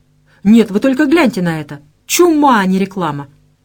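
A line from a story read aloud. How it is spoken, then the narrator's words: Exclaimed. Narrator (Russian): воскликнула Максимец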